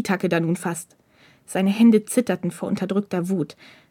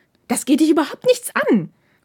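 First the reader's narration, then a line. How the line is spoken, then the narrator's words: Hissing retort. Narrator (German): fauchte Takeda zurück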